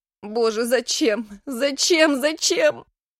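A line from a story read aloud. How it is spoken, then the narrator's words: Hoarse anguished shouting. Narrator (Russian): Хрипло кричала Дина, колотя кулаками по подушке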